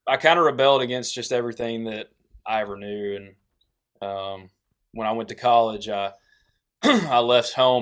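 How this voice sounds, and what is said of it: Southern accent. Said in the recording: “they'd all mess with me about my accent, and they started calling me”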